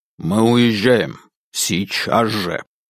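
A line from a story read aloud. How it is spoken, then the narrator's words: Quiet, firm, uncompromising voice. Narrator (Russian): Макеев говорил тихо, но по голосу было заметно, что возражений он не потерпит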